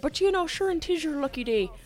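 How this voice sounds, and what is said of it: Bad put-on Irish accent. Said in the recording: “Horrible accent. I apologize to all the Irish people out there.”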